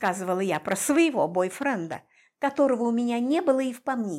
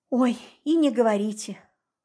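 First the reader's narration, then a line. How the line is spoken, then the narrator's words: Sigh. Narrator (Russian): вздохнула Марго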